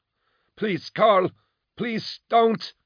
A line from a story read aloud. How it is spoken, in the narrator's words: she wailed